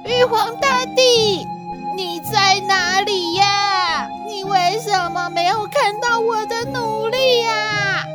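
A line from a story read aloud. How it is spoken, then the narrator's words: Shouting skyward. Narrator (Chinese): 他就对着天大喊说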